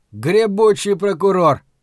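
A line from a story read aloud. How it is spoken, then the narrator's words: Grumbling. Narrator (Russian): пробурчал Ларри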